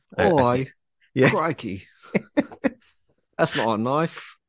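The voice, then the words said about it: Put-on Australian accent. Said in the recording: “He's gonna try and do an Australian accent at me.”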